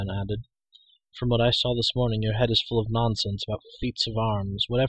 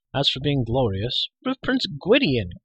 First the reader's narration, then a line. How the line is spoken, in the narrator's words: cried Taran